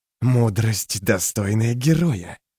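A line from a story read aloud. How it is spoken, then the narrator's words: Hissed. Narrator (Russian): прошипел он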